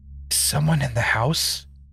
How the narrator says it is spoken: Laura whispered

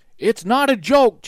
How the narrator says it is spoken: Jack shouted

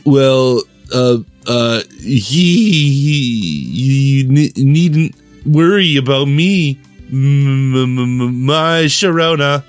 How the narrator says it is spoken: With a sheepish giggle, Plague Knight somehow managed to stutter out

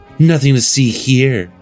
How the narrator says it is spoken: she purrs, content

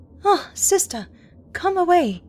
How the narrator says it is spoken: cried

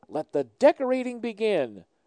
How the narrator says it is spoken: my mom announced cheerfully

